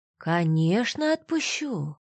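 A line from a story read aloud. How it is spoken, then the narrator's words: Calm, menacing reply. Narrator (Russian): Вдруг спокойно и страшно ответил Гордеев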